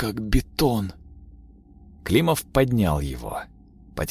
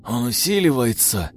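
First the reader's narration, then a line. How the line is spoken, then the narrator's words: Strained, forced out. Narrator (Russian): выдавил сержант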